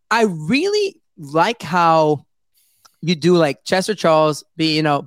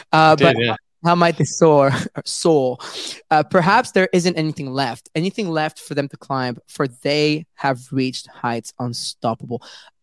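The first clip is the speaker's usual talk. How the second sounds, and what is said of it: Put-on British accent. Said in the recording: “with your British accent ... And my accent got better, huh?”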